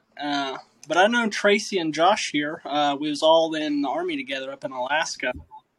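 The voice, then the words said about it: Slight Southern US accent. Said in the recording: “I'm from Kentucky. You can hear my little southern accent.”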